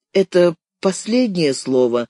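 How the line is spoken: Muffled question. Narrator (Russian): глухо спросил Лева

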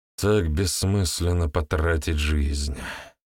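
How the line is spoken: Sighing. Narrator (Russian): вздохнул он

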